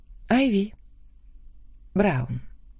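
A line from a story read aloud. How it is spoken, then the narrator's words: Quiet, smiling. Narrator (Russian): тихо ответила я, улыбаясь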